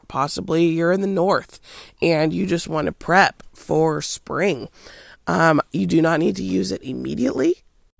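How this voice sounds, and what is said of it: Slightly hoarse voice. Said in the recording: “I apologize for sounding a little bit hoarse as well, because I am under the weather just a little bit.”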